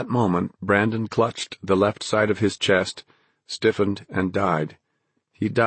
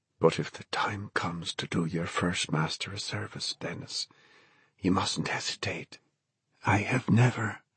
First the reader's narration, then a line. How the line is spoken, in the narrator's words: Brandon said, and then whispered